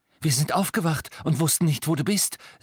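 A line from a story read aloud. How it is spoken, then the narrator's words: Breathless. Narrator (German): sagte sie atemlos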